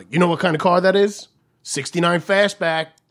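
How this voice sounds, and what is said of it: Loud put-on Italian New York accent. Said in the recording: “loud voice ... you made him sound very Italian ... or maybe that's just a terrible New York accent”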